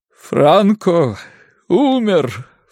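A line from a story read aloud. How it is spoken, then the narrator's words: Sobbing announcement. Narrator (Russian): всхлипывая, объявил действующий председатель правительства Ариас Наварро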